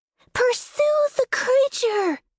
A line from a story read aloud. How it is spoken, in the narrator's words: the Princess in Blankets shouted